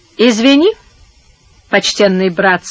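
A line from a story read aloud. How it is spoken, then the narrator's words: Calm. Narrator (Russian): сказал Антонио спокойным голосом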